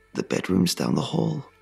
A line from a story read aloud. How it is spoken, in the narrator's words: I groaned